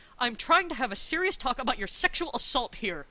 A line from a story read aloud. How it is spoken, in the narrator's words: Rodney snapped